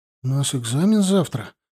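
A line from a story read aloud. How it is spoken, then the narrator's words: Uncertain objection. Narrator (Russian): неуверенно возразил ему молчавший до этого Мишка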